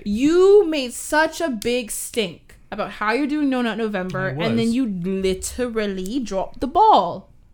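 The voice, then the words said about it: Put-on British accent. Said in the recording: “What was that accent? ... My British accent is... Much better than yours.”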